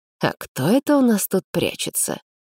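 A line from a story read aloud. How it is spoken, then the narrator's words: Feigned good-natured tone. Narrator (Russian): наигранно добродушным тоном поинтересовался блондин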